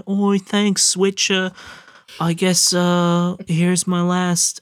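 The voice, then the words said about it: Put-on villager accent. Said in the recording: “I'm going to stop doing the accent.”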